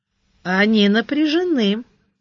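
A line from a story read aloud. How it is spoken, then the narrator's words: Calm remark. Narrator (Russian): отметил спокойно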